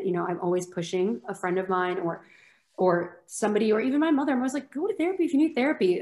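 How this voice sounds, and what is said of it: Americanized accent. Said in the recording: “if it wasn't clear by my accent, I was extremely Americanized”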